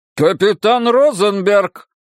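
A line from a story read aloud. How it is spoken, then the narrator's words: Mayor barking. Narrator (Russian): рявкнул мэр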